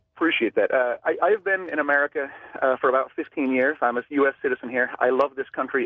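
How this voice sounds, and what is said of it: Danish accent. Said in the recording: “accent may sound a little funny. I am originally from Denmark.”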